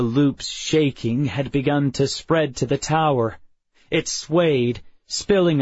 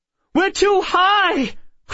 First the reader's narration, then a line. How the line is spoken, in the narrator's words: cried Miss Wren